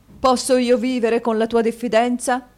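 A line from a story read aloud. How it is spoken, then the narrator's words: Husband exclaiming. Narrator (Italian): esclamò il marito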